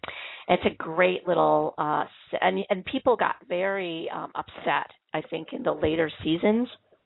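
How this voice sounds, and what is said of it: Congested, sick-sounding voice. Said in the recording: “I have a cold. You might be able to tell that in my voice.”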